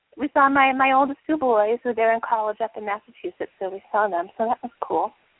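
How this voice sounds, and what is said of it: Out of breath, breathless speech. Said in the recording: “out of breath, I'm sorry, I was like running from the other room, but I can't breathe”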